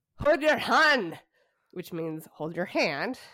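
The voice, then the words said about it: Put-on Scottish accent. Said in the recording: “I'm going to try to do a Scottish accent just to annoy my husband ... you can all understand my Scottish accent”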